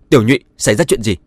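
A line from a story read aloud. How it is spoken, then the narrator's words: Angry. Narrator (Vietnamese): Điển Vĩ tức giận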